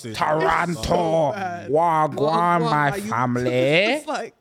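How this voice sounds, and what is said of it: Put-on Toronto accent. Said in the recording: “That Toronto accent is absolutely horrid.”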